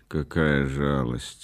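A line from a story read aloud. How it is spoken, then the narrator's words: Calm. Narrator (Russian): спокойно сказал Рейзнер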